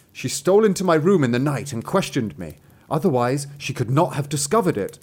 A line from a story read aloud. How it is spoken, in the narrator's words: The youth begged for a hearing, and he said